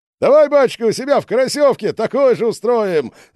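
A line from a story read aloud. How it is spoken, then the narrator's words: Cheerful shout. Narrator (Russian): Забывшись, весело крикнула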